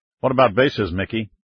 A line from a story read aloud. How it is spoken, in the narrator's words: Jackson asked